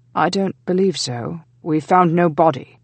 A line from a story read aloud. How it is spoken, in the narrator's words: John said harshly